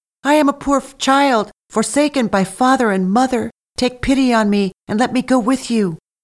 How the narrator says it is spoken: she awoke and was frightened and cried out

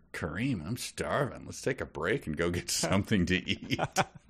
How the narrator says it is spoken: the Mopec warrior Abdul whispered

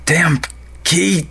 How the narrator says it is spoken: I snorted

